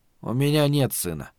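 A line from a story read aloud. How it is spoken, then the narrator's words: Very quiet. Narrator (Russian): сказал Малибард, но очень тихо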